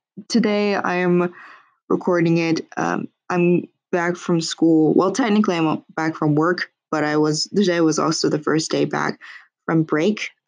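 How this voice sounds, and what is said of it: Cracking, slightly sick, tired voice. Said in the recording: “My voice is cracking. I'm kind of getting a little bit sick ... I'm just really, really tired”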